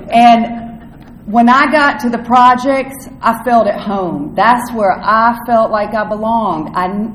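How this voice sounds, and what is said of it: North Carolina Southern accent. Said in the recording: “I'm from North Carolina, if you can't tell from my accent.”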